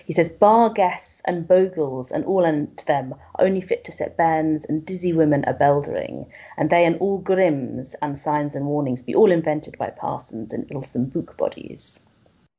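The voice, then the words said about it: Attempted Whitby Yorkshire accent. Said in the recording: “I don't have a good Whitby accent, so apologies to any listeners who knows how this should sound.”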